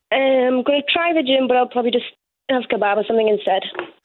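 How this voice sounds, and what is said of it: Whiny, distinctive regional speaking voice. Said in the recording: “This is an interesting voice. ... I'm so whiny and annoying. ... No, this is me all the time.”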